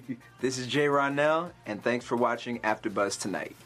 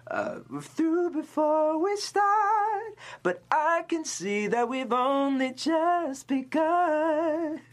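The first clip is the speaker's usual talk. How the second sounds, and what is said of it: Sung imitation with accentuated vowels. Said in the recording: “She kind of accentuates certain vowels. ... I don't know if that was the best impersonation”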